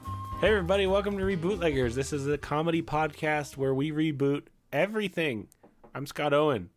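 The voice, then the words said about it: Voice sounds sick. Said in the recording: “If you can't tell from my voice, I'm recovering from an illness of the face variety. The inside face. ... an upfront apology for the state of my”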